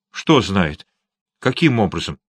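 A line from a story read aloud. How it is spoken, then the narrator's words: Quick speech. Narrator (Russian): Лаксворт быстро проговорил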